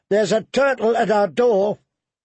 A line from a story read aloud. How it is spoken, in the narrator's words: Pip shouted